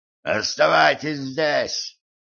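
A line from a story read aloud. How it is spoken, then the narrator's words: Hoarse rasp. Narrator (Russian): прохрипел он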